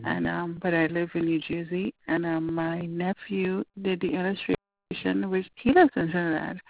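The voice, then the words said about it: Trinidadian accent. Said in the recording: “I have an accent, so you know, I'm from Trinidad.”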